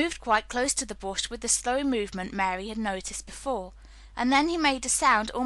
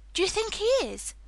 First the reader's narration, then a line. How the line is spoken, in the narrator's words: cried Mary eagerly